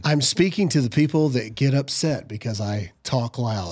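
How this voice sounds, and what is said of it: Soft, sultry radio announcer voice. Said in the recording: “So this is my radio voice. ... That sounds like a Skinamax voice. ... This is my romantic novel voice.”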